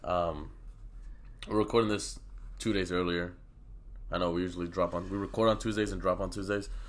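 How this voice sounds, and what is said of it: Sick, rough-sounding voice. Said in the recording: “sorry for my voice. I know I'm fucking sick right now, so it's not... my voice is not as appealing”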